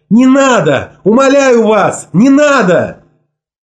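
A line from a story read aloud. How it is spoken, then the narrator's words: Screaming. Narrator (Russian): Мот закричала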